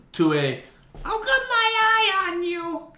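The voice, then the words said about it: Crazy old lady character voice. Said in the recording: “What was that voice? ... It's like the crazy old lady that's like looking at you from behind her screen on her porch”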